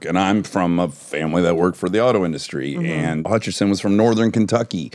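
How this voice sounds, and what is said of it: Detroit accent. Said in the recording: “my stupid Detroit accent I can't shake”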